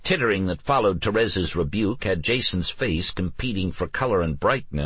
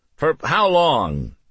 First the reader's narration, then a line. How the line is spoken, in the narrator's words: Jason yelled, but he did make an effort to lower his voice a little